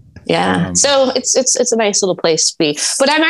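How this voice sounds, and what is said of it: Usual voice. Nothing is said of it.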